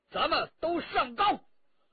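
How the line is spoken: Calling out. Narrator (Chinese): 陈家洛叫道

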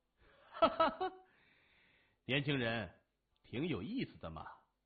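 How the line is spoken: Middle-aged man's hearty laughter. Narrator (Chinese): 穿军装的中年人哈哈大笑

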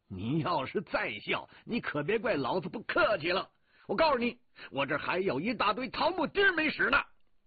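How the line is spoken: Loud scolding. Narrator (Chinese): 我大声骂着

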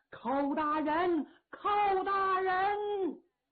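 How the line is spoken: Shouting. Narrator (Chinese): 王强高喊

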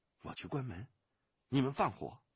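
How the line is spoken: Low voice. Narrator (Chinese): 低声地说

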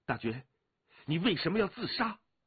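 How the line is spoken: Calm voice turning urgent. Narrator (Chinese): 那淡淡的声音也骤然急了起来

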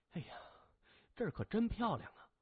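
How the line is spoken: Admiring sighs. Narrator (Chinese): 邱宁水嘴里不时叹着

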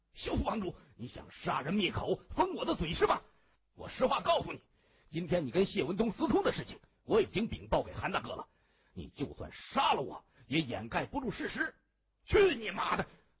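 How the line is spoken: Loud shouting. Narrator (Chinese): 他心中一颤，不敢大意，同时他大声的喊着

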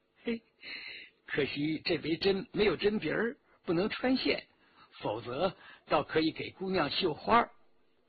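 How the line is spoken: Forced cheer, frightened. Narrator (Chinese): 徐天红脸如白纸，仍强作言笑

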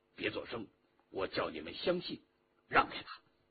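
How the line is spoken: Low voice. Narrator (Chinese): 陆飞卿低声地说

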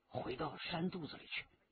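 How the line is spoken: Whispering in ear. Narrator (Chinese): 李元直在他耳边低声地说

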